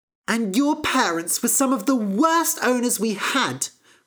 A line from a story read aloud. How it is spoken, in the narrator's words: cried Fennel